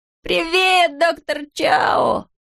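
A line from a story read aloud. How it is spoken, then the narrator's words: Joyful yell. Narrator (Russian): радостно завопил он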